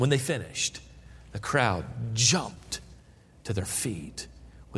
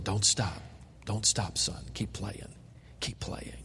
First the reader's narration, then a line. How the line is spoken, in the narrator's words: Paderewski kept whispering